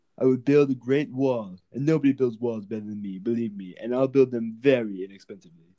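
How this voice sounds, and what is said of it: Donald Trump impression. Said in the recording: “do a Donald Trump impression”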